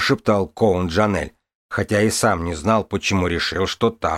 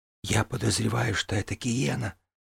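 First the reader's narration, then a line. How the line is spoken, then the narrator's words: Whispered reply. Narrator (Russian): прошептала она в ответ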